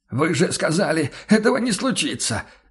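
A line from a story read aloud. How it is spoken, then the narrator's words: Hoarse shout. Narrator (Russian): сипло выкрикнул он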